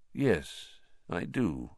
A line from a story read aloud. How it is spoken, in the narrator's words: said Dumbledore quietly